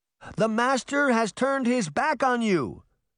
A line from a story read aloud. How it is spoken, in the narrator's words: Veronica shouted over the bedlam